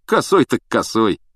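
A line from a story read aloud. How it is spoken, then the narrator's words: Snorting. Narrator (Russian): хмыкнул Стэн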